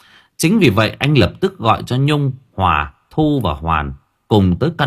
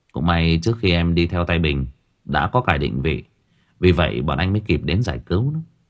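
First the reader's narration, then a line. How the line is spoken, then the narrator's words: Smiling. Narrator (Vietnamese): Nam mỉm cười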